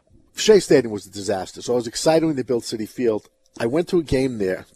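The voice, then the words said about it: Brooklyn New York accent. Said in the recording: “I'm from Brooklyn, New York. ... my accent's not gone?”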